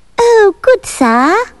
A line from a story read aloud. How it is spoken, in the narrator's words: piped the pig